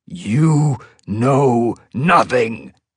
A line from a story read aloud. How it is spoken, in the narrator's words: he growled